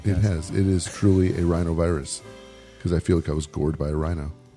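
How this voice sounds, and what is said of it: Congested voice from a cold. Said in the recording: “I have this cold that has tried to kill me”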